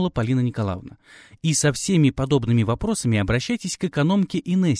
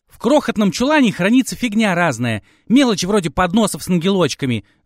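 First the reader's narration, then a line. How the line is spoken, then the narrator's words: Yell. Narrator (Russian): заорала Татьяна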